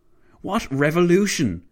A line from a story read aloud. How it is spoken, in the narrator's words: Clavel barked